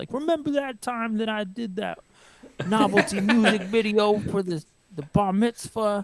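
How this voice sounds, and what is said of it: Imitates another person's voice. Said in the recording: “It's a very good impression. I give that a 10 out of 10. It was very accurate.”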